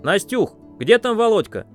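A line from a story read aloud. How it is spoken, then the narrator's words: Shouting. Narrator (Russian): крикнул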